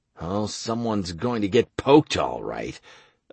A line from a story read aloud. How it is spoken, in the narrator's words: I grumbled